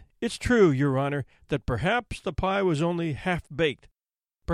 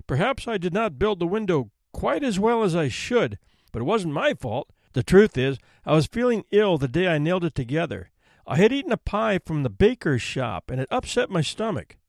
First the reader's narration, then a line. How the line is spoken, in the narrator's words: he faltered